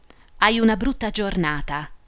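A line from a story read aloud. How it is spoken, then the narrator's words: Plain. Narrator (Italian): disse la pretora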